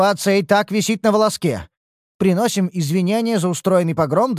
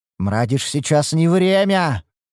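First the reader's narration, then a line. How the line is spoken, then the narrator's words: Hiss. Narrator (Russian): прошипел Шальдур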